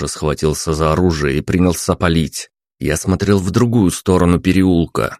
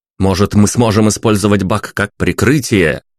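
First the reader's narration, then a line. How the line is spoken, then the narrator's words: Shouted. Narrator (Russian): крикнул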